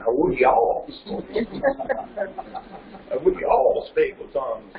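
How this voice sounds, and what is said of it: Put-on Southern accent. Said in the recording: “This is God with a southern accent.”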